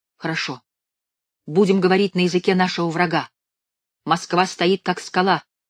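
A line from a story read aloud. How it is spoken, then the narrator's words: Shouted. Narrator (Russian): выкрикнул я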